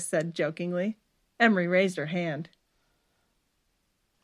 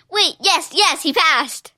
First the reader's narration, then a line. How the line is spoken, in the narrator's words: Emery squealed